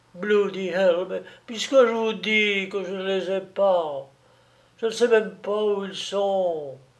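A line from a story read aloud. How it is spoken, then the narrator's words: Furious growl. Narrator (French): grogna Ben Howick en proie à une sombre fureur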